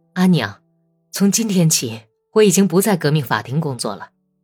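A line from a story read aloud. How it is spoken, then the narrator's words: Happy, beaming. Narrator (Chinese): 本丘克脸上露出高兴的、欢跳的笑容，说道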